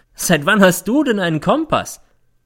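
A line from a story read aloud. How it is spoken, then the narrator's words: Mocking question. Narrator (German): fragt, und es klingt wie Hohn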